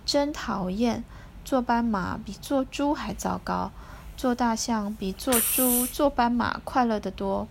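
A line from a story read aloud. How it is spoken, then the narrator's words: Sighing. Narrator (Chinese): 小猪叹一口气说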